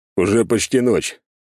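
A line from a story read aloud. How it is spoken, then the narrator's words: Snort. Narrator (Russian): хмыкнул Альберт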